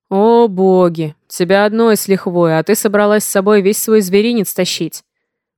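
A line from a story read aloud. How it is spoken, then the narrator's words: Booming voice. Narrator (Russian): Прогудел отец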